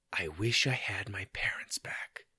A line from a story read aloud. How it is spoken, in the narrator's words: After a deep breath, whispered